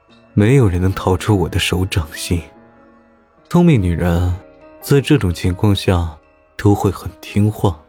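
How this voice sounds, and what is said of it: Lonely, worldly male character voice. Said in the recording (Chinese): “用烟火寂寞的声音说”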